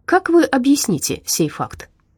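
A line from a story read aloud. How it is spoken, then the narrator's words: Calm. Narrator (Russian): Кочугин спокойно произнес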